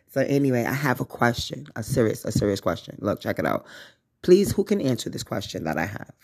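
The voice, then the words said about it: Congested, phlegmy voice. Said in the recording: “my nose is a little congested and everything like that. My nose, my voice is a little phlegmy”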